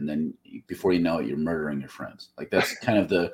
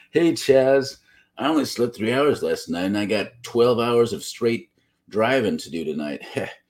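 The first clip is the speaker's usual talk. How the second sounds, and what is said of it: Put-on truck driver accent. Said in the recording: “That's just apparently how truck drivers talk. ... That was my truck driver accent.”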